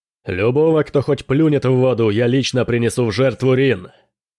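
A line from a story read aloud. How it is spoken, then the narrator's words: Shout. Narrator (Russian): крикнул Дрейк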